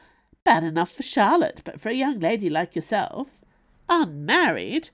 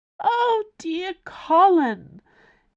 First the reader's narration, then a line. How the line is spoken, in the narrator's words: exclaimed Plum or Partridge